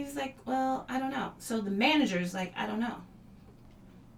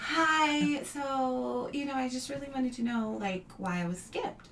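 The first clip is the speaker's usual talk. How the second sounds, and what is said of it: Put-on 'white girl' voice. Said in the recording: “I put on my best white girl voice.”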